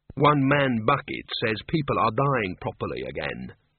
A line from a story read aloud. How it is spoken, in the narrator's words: said Mrs